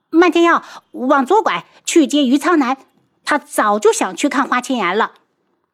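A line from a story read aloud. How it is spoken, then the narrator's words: Loud. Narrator (Chinese): 他马上又大声道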